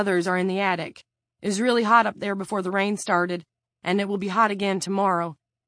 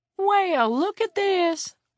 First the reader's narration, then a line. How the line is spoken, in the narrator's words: Willie exclaimed